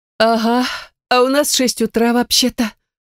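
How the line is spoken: Sleepy mother. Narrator (Russian): сонно выдала мама

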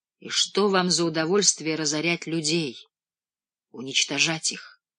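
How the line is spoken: Whisper. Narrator (Russian): прошептал

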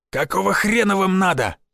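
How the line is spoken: Barked. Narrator (Russian): рявкнул Шишаков

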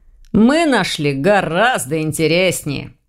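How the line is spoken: Snorting. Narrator (Russian): хмыкнул Ваня

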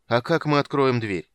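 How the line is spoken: Tired question. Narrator (Russian): спросил Стурм, устало

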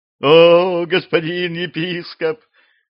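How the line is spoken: Wailing petitioner. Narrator (Russian): взвыл проситель

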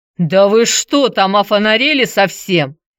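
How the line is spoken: Roared. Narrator (Russian): взревел Золотов

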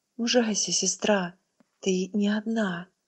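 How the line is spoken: Quiet. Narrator (Russian): Янакин Мюнсдорп тихо сказала

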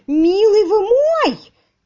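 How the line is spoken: Shrill shout. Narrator (Russian): Визгливо закричал он

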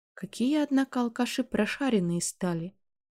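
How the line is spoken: Chuckling laugh. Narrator (Russian): хохотнул папа

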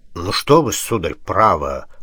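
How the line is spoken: Coy mumble. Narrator (Russian): пробормотал старший, жеманясь, как перезрелая красотка перед гусаром

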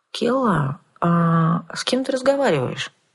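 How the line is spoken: Silky ingratiating question. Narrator (Russian): вкрадчиво поинтересовался повелитель

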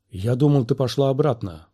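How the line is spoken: Whisper. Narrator (Russian): прошептал Оби-Ван

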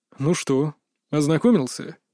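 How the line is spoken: Outwardly calm inquiry. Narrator (Russian): С виду спокойно осведомился Кри

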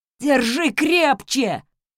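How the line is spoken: Hoarse. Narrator (Russian): хрипел Хэл

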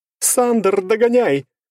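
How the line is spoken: Shouted telepathically. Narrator (Russian): закричала она в моей голове

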